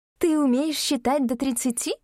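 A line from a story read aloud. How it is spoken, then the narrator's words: Higher voice, feigned astonishment. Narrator (Russian): Чуть более высоким голосом заговорила она уже за себя, деланно изумляясь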